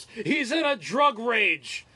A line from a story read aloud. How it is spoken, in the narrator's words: my roommate just yells